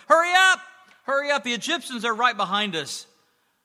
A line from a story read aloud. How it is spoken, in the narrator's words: they began to shout to everyone in front of them